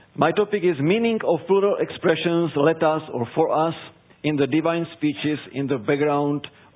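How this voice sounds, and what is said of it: Czech-accented English. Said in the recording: “I will do it also in my Czech accent, because I'm originally from the Czech Republic, from Europe ... you need to adjust to my European English”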